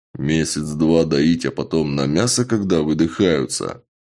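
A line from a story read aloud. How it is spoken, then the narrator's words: Even gloomier. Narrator (Russian): еще более мрачно уточнил Чак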